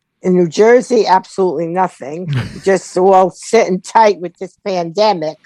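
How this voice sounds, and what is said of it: Low gravelly voice, New Jersey accent. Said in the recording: “your voice is a little low and grovelly ... You have a Jersey accent.”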